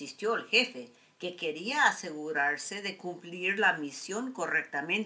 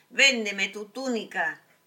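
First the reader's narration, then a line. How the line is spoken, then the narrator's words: Shouted. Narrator (Spanish): gritó el jefe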